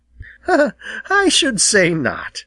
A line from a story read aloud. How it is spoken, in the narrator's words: laughed Jenny